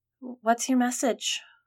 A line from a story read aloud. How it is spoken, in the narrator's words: Margaret asked, her voice trembling